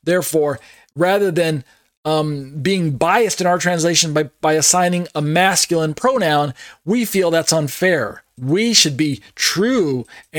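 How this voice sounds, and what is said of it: Sarcastic tone. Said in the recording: “you can hear the sarcasm in my voice”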